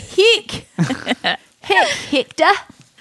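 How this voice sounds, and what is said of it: New Zealand accent. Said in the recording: “if I say it in my New Zealand accent”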